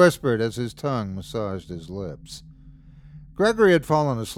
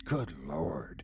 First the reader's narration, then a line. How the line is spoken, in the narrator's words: he whispered to himself